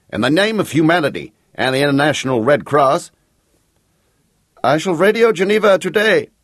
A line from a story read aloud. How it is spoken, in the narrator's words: the Count shouted back